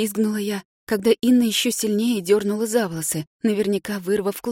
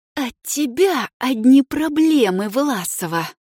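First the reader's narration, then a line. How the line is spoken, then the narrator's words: Hissed in face. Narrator (Russian): прошипела мне в лицо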